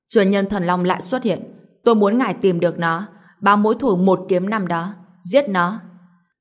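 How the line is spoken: Loud shout. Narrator (Vietnamese): Tá Đẳng Thái Thần lớn tiếng quát

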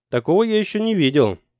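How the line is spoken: Shouting over sirens. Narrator (Russian): Брагин стараясь перекрыть вой сирен, крикнул

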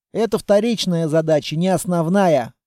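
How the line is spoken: Snort. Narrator (Russian): хмыкнул я

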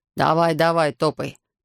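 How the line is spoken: Mocking. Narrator (Russian): насмешливо сказал хозяин

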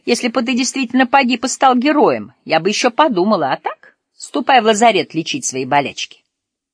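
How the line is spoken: Laughing. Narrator (Russian): Лаура рассмеялась

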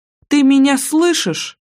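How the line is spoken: Sharp shout. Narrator (Russian): прикрикнула она

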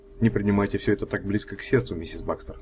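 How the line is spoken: Plain. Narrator (Russian): сказал я

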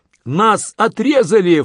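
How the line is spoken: Soldier shouting in panic. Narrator (Russian): в панике кричал один из французских солдат

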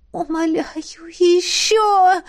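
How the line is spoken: Moaning. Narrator (Russian): Я простонала

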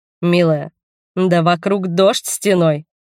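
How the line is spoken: Snorted. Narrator (Russian): Фыркнул он

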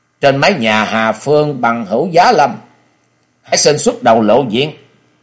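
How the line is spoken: Stern loud shout. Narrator (Vietnamese): Nghiêm giọng Di Kế Hoàng quát lớn

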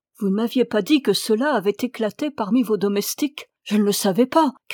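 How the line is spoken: Shouted. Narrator (French): cria la même Sahib

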